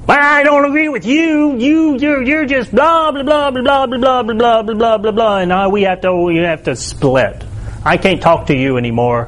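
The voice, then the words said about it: Put-on Southern American accent. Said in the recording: “I don't know why I break into a southern accent when I say that.”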